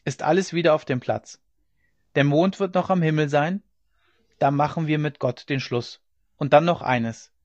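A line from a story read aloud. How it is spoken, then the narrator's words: Called out. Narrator (German): rief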